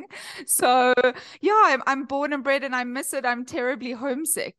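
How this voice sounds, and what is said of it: South African accent. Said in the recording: “I've kind of retained the South African twang”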